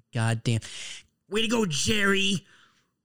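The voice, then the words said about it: Poor impression of a cartoon character. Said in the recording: “my Rick impression ... That was terrible”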